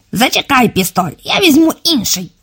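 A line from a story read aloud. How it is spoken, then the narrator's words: Fat man squeaking. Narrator (Ukrainian): пропищав товстий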